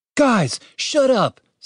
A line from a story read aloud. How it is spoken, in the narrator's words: said Julian excitedly